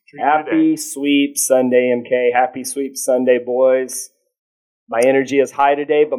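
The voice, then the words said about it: Low, strained voice from screaming. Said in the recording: “my voice is low because I've been screaming for 27 innings in 2 days”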